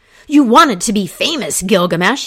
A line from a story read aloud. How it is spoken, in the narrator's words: he cried